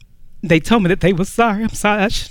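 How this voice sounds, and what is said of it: Emotional, choked-up voice. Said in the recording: “I didn't know I was going to get emotional.”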